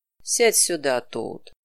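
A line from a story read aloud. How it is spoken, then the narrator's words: Old badger, gentle. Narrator (Russian): сказал дядюшка барсук мягко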